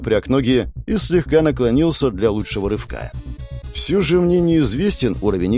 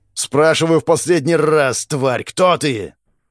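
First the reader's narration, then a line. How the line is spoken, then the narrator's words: Roaring. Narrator (Russian): проревел он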